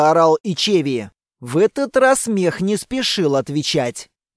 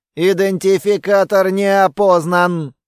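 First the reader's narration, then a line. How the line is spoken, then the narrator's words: Rough mechanical voice. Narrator (Russian): механическим грубым голосом ответил мех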